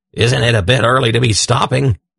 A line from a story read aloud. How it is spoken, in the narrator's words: he rasped, after he had shimmered and changed